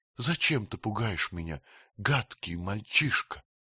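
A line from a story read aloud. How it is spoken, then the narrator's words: Angry, through tears. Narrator (Russian): заговорила она гневно сквозь слезы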